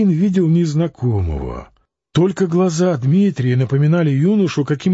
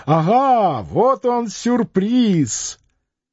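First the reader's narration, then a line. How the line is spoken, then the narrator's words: Cheerful shout. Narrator (Russian): весело крикнул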